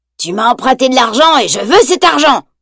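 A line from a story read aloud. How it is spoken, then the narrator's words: Growl. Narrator (French): grogne-t-il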